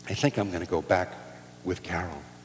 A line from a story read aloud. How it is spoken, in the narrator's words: she said very softly